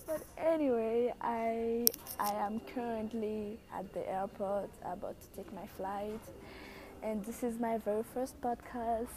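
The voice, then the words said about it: Very thick Haitian accent. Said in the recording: “I know I have a very thick accent. That's because I'm from Haiti, and English is like my third language.”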